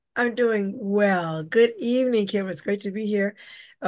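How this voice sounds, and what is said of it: Husky voice from a cold. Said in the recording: “Pardon my voice ... getting over a little cold ... my husky voice”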